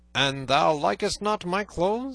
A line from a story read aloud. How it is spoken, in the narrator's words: said Robin, in a harsh voice like that of Guy of Gisborne